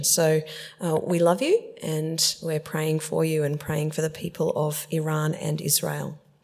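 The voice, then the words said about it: Raspy voice. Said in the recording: “having a raspy voice”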